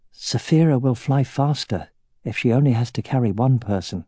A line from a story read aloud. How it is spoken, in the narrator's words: said in a quiet voice